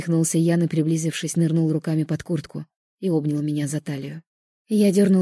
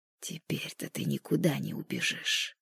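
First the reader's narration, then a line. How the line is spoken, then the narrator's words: Intimate close whisper. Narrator (Russian): шепнул он, касаясь губами виска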